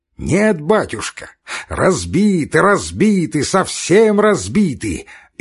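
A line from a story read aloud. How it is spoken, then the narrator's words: Cheerful shout. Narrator (Russian): весело прокричал Катавасов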